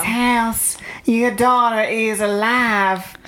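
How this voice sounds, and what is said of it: Crazy high voice, slight southern accent. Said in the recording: “Got a crazy voice. ... And got a crazy high voice ... Like a little southern accent. ... that was annoying”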